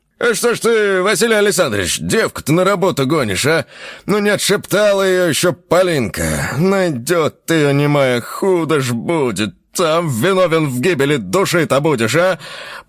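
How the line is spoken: Old man speaking loudly. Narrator (Russian): один из стариков громко сказал

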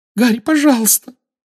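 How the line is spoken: Weak squeak. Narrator (Russian): слабо пискнула Гермиона

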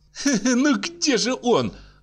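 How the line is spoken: Nervous laughter. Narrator (Russian): заговорила она, нервно смеясь

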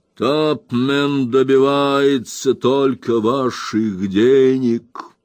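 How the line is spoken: Muffled, conflicted. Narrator (Russian): он, казалось, боролся с противоречивыми чувствами, а затем глухо произнес

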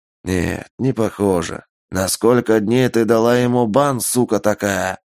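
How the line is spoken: Menacing. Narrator (Russian): Грозно спросил Юджин

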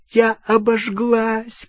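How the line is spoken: Pained moan. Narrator (Russian): простонала Гермиона

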